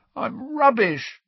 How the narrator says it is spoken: croaked Ron

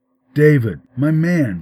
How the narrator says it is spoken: she asked

